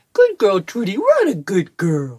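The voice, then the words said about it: Special voice for talking to dogs. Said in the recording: “my special dog voice that I use when I'm talking to my dogs that I don't ever talk to anyone in that voice”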